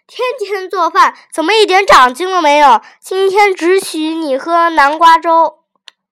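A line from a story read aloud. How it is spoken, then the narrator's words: Annoyed shout. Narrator (Chinese): 新妈妈也皱着脸大喊了一声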